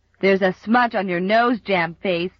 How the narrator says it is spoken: jeered Bill Palmer

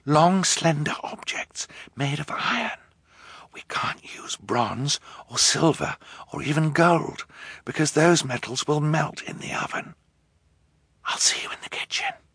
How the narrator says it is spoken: Violet whispered

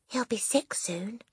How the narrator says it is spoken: Lavender whispered back

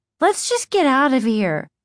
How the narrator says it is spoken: Margaret exclaimed

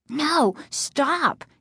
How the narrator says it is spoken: Casey cried

